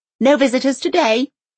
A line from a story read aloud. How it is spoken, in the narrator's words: she snaps with absolute certainty